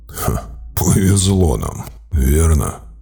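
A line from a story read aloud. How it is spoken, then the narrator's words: Grim chuckle. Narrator (Russian): мрачно усмехнулся Гарлан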